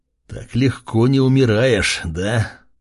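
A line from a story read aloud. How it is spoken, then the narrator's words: Hissed. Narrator (Russian): прошипел я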